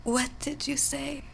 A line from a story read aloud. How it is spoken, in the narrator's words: she whispered weakly, her throat dry